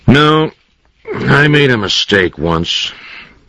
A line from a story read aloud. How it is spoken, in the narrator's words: he said in a flat voice